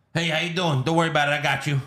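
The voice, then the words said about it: Put-on New York accent. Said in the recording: “New York accent ... fake boy voice ... kind of New Yorkish”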